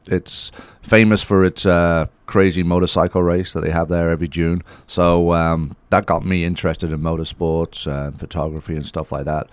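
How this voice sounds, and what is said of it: Non-American, Isle of Man accent. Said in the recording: “people can probably tell from your accent you didn't grow up in, like, Georgia”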